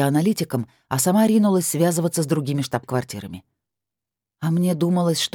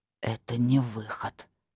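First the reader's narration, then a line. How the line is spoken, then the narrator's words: Dejected whisper. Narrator (Russian): прошептал сокрушённо Шиллер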